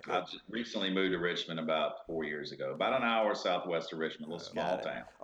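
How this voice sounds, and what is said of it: Southern Virginia regional accent. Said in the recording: “he's not as heavy as an accent, but he definitely has that accent like you do”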